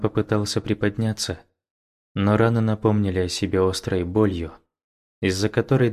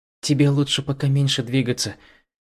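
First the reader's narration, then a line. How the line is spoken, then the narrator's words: Gentle. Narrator (Russian): мягко произнес Ичан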